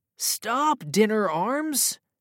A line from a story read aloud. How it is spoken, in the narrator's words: cried Sam